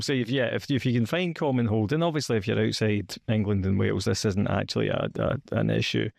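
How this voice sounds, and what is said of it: Scottish accent. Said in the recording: “as you can tell from my accent, from Scotland”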